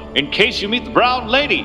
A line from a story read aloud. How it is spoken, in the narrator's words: he said, laughing